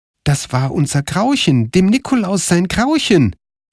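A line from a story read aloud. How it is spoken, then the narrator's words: Exclamation. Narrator (German): rief Karl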